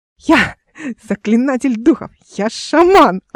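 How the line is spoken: Yelling. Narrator (Russian): орала Эл

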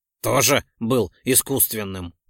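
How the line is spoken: Scoffing grunt. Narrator (Russian): хмыкнул Ролден

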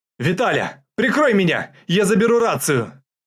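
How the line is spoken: Shouted. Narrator (Russian): крикнула Нентину

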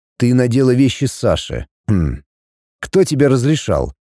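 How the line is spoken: Deceptively calm. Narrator (Russian): Максим обманчиво спокойно сказал

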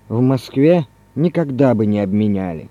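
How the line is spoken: Loud sigh, then speaking. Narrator (Russian): Иван Иванович, шумно вздохнув, сказал

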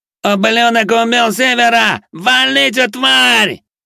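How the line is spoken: Wild, frenzied yell. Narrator (Russian): Дурным голосом заорал Плешивый

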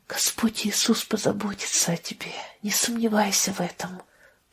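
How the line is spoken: Whisper. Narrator (Russian): прошептала она

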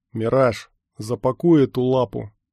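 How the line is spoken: Grim command. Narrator (Russian): мрачно распорядился Эверест

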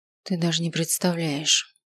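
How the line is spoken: Muttering. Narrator (Russian): пробормотал я

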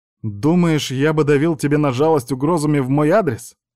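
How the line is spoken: Angry smirk. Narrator (Russian): Зло усмехнулся он

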